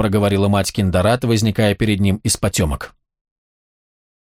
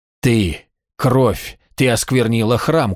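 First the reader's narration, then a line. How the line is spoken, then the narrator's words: Forced out with difficulty. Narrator (Russian): кое-как выдавил Гартышкел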